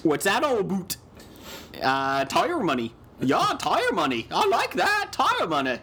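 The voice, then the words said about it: Canadian accent drifting into English. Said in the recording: “I think that was kind of a Canadian accent. ... Yeah, until the end. ... you started pulling out your, whatever your Michael Caine is. ... That's an English accent.”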